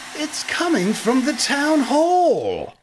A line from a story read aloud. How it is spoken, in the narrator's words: cried the dog